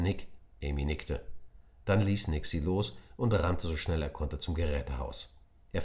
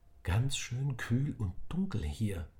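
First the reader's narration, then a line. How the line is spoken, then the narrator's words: Whisper. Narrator (German): flüsterte Emi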